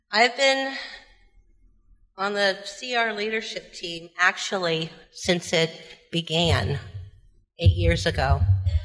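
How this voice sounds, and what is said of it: Slightly congested voice. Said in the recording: “I have a little bit of a cold.”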